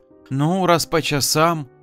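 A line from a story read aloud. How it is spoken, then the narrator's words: Thoughtful pause, then sigh. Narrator (Russian): задумалась, а потом вздохнула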